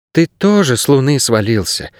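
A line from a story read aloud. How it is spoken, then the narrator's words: Sighing. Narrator (Russian): вздохнула Агнес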